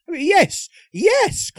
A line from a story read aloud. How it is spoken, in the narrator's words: cried Publius